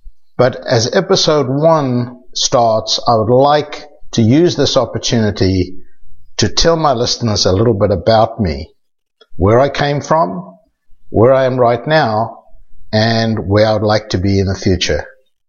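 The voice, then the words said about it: South African accent. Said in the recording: “You can tell by my accent that I'm originally from South Africa”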